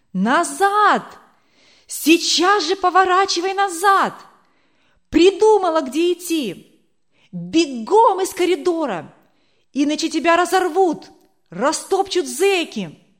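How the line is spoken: Tall officer shouting. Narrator (Russian): высокого офицера, который кричал ей

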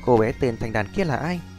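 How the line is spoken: Soft. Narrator (Vietnamese): Lăng Thanh Trúc khẽ nói

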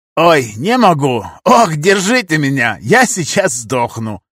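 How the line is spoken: Wild laughter. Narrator (Russian): Карим хохотал, как сумасшедший

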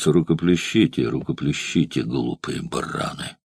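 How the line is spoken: Said under breath. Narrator (Russian): сардонической улыбкой искривила губы Суллы, и он вполголоса произнес

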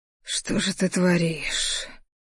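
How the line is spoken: Strained, barely restrained whisper. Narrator (Russian): прошептал вымученный, едва сдерживая себя в руках

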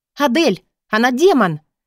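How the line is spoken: Barked. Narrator (Russian): рявкнула я Мору

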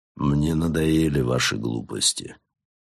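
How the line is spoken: Tired voice. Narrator (Russian): бросил он усталым голосом

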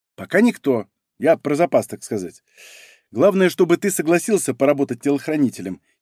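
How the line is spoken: Giggling. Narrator (Russian): хихикнула Аня

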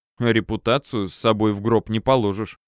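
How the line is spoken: Snorting remark. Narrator (Russian): хмыкнул я

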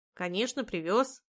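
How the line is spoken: Indignant disapproving snort. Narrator (Russian): Лена возмущенно фыркнула, не одобряя прямолинейности дочери

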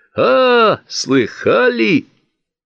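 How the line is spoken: Sudden loud laughter, mustached man. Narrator (Russian): расхохотался вдруг усатый

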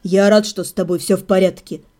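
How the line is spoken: Quiet. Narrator (Russian): негромко проговорил Седрик

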